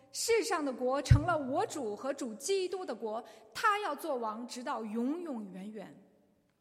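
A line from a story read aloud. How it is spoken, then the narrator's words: Loud voice from heaven. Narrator (Chinese): 天上就有大声音说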